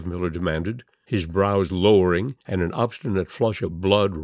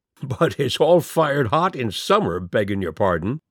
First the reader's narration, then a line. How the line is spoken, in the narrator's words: Skiff Miller laughed